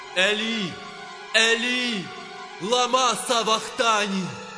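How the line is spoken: Loud cry. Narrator (Ukrainian): скрикнув Ісус гучним голосом, кажучи

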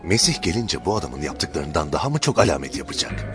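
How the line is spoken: Crowd whispering. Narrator (Turkish): halkın İsa hakkında bu şekilde fısıldaştığını

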